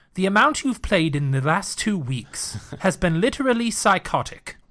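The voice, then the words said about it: Put-on British butler voice. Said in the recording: “I'm going to do it in his voice as well... British accent? ... Yeah.”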